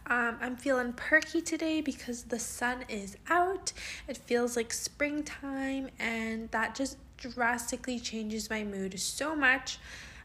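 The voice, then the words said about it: Groggy just-woke-up voice. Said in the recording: “Sorry if my voice sounds kind of weird right now. I just woke up.”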